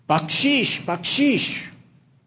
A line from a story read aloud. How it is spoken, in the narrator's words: screaming out